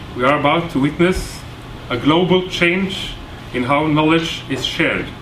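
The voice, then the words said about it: Norwegian-accented English. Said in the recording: “speaking English with this bad Kjesås accent”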